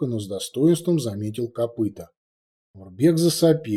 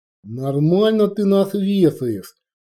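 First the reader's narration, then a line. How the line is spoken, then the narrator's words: Babbling. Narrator (Russian): пролепетал копыта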